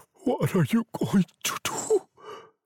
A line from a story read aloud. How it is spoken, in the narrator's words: he asked in a low, scared voice